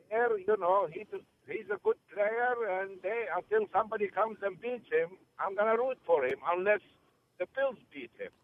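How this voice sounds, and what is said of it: Noticeable regional accent. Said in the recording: “I just love the accent... I love the accent there. That was great.”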